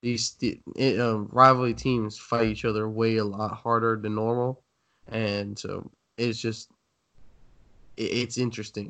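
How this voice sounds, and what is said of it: Sick-sounding voice. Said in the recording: “I'm a little bit sick. So that's why I sound terrible.”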